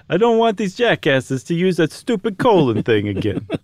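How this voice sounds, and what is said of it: Mock Italian-Bronx accent. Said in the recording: “You sounded like Italian by way of the Bronx. ... I don't do it very well.”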